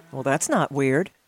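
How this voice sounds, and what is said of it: Sarcastic tone. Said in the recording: “Why the sarcasm?”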